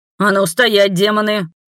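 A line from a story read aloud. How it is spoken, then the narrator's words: Barking shout. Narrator (Russian): гаркнул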